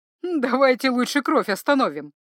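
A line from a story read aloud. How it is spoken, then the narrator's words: Speaking through laughter. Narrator (Russian): произнесла она сквозь смех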